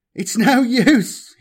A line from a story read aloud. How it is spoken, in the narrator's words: he sobbed